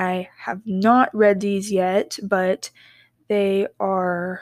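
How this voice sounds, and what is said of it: Usual voice. Nothing is said of it.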